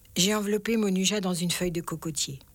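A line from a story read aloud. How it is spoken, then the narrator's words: Sad addition. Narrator (French): ajouta-t-elle tristement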